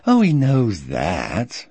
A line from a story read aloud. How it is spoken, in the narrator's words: mocking me